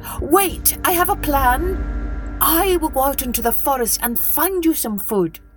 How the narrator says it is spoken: the monkey cried out

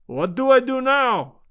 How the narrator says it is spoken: cried

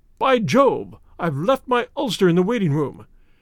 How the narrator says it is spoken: suddenly Clayton exclaimed

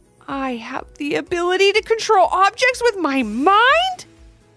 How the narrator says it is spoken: He shouted

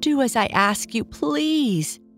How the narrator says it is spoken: begged the donkey-eared man

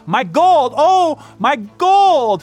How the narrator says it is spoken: cried the miser wildly

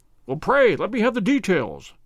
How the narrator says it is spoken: I cried

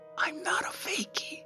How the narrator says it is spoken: he whispered

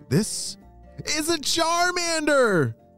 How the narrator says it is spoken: shouted Ethan

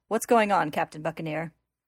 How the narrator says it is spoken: the big man quickly snaps to attention to address someone standing on a metal platform above them

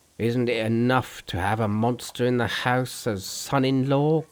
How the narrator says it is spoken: grumbled the old man

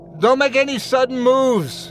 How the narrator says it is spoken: I shouted

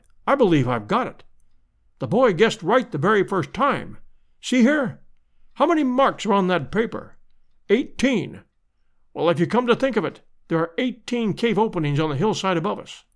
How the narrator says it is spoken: he cried

